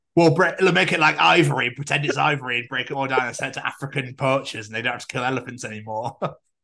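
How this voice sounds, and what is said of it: Put-on Yorkshire accent. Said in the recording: “I don't know why I'm talking a Yorkshire accent in Birmingham ... sexy accent”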